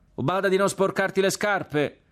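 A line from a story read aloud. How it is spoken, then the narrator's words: Shouted. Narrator (Italian): gli gridò uno dei suoi compagni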